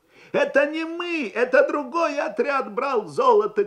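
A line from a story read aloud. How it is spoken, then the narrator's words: Offended shout. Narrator (Russian): крикнул один из меньшевиков обиженным голосом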